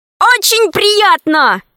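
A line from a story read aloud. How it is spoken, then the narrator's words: Shouted reply. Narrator (Russian): крикнул в ответ Пашка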